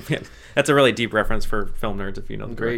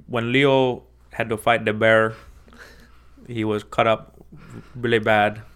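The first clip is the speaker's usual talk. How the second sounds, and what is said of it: Imitates another person's voice. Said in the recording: “I always do an impression of Iñárritu talking about the bear”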